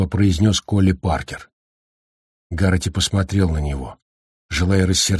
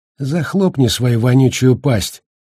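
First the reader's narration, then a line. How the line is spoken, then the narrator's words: Calm. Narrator (Russian): спокойно сказал МакВрайс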